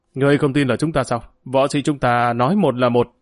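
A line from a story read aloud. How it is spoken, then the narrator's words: Roar. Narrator (Vietnamese): Cung Bồn Hùng Nhị gầm lên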